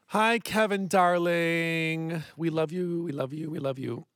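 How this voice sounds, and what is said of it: Voice briefly gives out, sounds elderly. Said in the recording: “I just lost my voice. I lost my voice for a second there. ... I thought you were doing a bad elderly person interpretation.”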